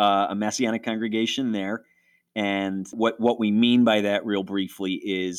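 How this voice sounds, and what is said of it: Usual voice. Nothing is said of it.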